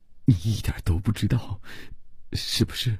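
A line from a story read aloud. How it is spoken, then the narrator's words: Frightened stammering. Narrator (Chinese): 伯罗姆吓得结结巴巴地说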